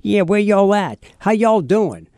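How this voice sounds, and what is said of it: Put-on New Orleans yat accent. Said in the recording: “the New Orleans yat accent? ... I got the yet accent”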